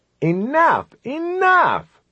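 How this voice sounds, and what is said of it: Disgusted exclamation. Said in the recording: “in a disgusted voice.”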